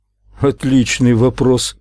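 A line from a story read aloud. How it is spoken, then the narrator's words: Embarrassed chuckle. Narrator (Russian): Уайзер смущенно хохотнул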